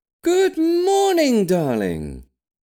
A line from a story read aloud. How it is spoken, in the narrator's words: Granny beamed cheerfully from across the kitchen, her mood dramatically improved by his mere presence